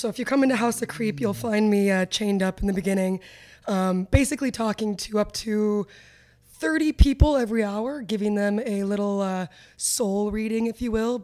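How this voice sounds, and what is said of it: Hoarse voice. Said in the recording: “your voice is a little hoarse because you've been destroying people's souls”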